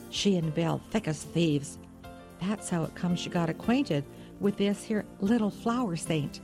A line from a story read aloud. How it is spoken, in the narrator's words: added, almost in a whisper